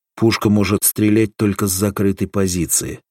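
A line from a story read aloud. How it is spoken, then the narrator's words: Plain. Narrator (Russian): сказал Соломатин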